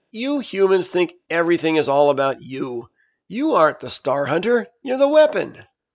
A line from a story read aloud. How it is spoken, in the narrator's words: Granny began laughing and said